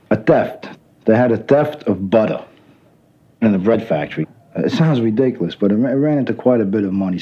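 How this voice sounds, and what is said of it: Strong Brooklyn accent. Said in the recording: “his lovely, central casting Brooklyn accent”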